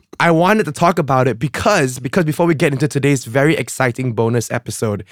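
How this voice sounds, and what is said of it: Hoarse, raspy voice. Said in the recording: “my voice sounds so damn sexy today ... my voice is horse ... rest your voice ... my voice is like this because we had a grand night of merrymaking”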